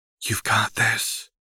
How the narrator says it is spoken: Lux murmured sotto voce to Seraphine

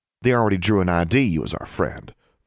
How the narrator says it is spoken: Forbearance said

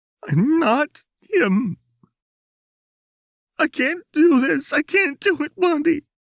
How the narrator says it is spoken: Jinx sobbed

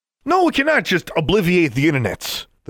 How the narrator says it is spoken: the suited man shouted

